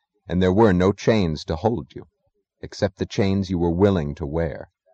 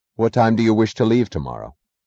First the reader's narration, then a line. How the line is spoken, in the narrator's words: his voice is clear, he asked